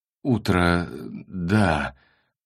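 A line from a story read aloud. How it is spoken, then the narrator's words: Mumble. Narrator (Russian): промямлил Василий Васильевич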